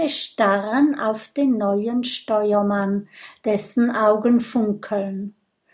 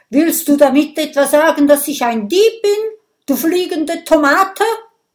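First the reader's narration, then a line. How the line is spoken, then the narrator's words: Quiet giggle. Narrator (German): kichert Oskar leise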